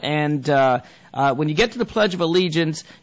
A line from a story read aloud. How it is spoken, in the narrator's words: she shouts out